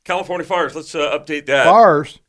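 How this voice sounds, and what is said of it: Mississippi-sounding Southern accent. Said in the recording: “you sounded like you had adopted ... a Mississippi accent”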